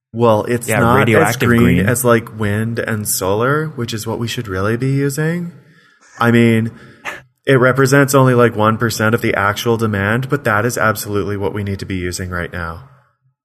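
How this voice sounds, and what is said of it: Put-on granola hippie accent. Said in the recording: “I liked the granola accent there. That was pretty good.”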